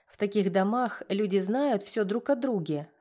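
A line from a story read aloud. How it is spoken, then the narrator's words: Plain. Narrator (Russian): сказал Рома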